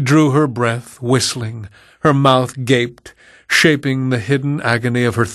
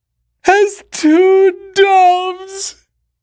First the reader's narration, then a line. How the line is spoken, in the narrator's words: she roared in a harsh, choking voice